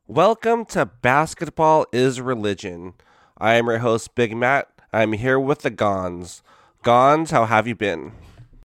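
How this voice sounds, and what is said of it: Voice sounds like starting cold. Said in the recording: “I can tell from your voice that you're going through some of what I just got going on right now, which is probably a start of a cold”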